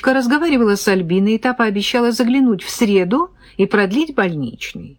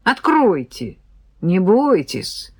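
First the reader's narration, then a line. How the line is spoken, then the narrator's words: Calm objection. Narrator (Russian): спокойно возразил Рыжий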